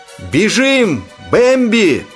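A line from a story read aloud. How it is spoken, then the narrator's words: Mother's desperate shout. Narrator (Russian): отчаянно крикнула мама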